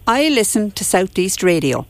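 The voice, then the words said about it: Wexford Irish accent. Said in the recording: “one town in Wexford or village ... where do you think that accent is from”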